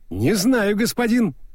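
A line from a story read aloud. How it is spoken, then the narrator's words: Cheerful answer. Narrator (Russian): бодро ответил Моркоу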